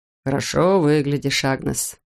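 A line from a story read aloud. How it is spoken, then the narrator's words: Purring. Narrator (Russian): промурлыкал он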